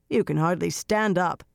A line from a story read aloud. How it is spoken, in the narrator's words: Brigitte growled